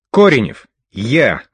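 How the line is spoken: Barking shout. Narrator (Russian): гаркнул Лис, как и положено

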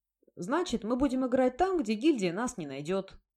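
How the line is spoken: Cheerful declaration. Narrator (Russian): бодро заявил Золото

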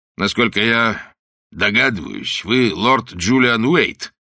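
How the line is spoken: Rude question. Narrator (Russian): грубо спросил он

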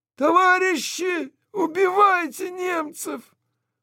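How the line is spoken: Tearing hoarse shout. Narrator (Russian): Сидящий Алексей Свиридов закричал раздирающим хрипом

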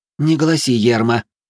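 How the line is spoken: Displeased grumble. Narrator (Russian): недовольно проворчала женщина

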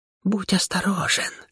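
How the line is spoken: Whisper in ear. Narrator (Russian): шепнула мне на ухо Кера

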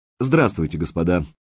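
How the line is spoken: Confident young man. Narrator (Russian): уверенным тоном начал парень с прикошенным ртом

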